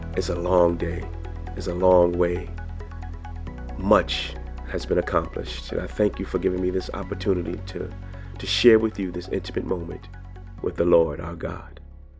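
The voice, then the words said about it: Sick voice with cold symptoms. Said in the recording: “I don't know if you could still hear it in my voice. ... this illness in my body with these symptoms of a cold”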